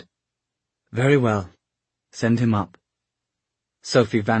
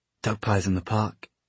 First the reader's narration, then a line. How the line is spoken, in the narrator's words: Jem said under his breath